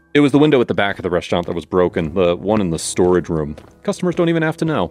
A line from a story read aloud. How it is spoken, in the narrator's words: he said